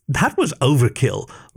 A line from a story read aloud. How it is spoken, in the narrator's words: laughed Ollie